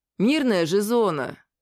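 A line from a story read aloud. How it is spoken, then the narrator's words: Uncertain. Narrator (Russian): неуверенно сказал я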